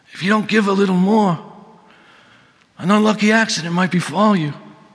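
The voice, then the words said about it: Vito Corleone gangster voice imitation. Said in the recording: “my Vito Corleone imitation”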